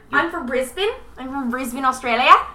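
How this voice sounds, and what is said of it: Put-on Australian accent. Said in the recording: “Oh, hey, Australian ... I thought your Australian accent.”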